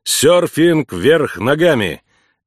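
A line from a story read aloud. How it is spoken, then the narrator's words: Laughing loudly. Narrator (Russian): Эмма хохотала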